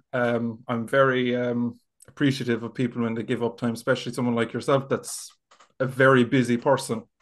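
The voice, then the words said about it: Irish accent, Kerry-Cork mix. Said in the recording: “whether you're from Kerry or Cork, because you've got that bit of a mix of an accent ... The mongrel accent.”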